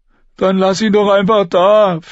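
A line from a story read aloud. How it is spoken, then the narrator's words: Pleading. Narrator (German): flehte Lommi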